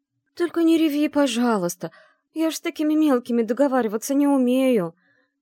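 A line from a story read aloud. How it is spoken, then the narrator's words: Pleading. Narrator (Russian): Взмолилась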